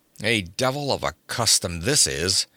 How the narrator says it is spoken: growled Conan

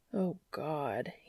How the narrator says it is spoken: muttered into his shoulder

